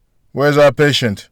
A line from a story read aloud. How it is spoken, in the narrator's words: a voice called out from the corner